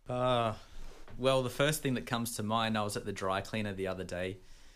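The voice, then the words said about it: Australian accent. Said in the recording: “where's that accent from? ... I'm from Australia ... Australia is the coolest accent in the world. It's like the English, except cool.”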